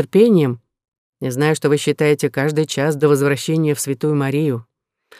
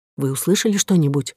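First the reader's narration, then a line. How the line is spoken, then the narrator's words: Whispered. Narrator (Russian): прошептал Амос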